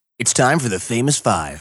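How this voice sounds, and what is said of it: Announcer-style radio voice. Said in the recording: “Give it to me in your best radio voice. ... Oh my gosh, so good.”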